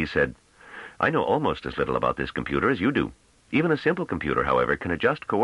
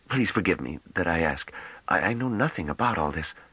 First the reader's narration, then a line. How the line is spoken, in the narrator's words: Then he added in a choked whisper